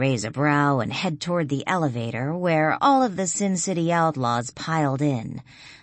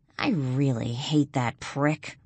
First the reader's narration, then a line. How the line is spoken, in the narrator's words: grumble